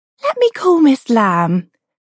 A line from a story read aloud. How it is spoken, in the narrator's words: the receptionist squeaked